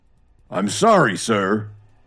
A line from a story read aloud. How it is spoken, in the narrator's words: Birch took a deep breath and shouted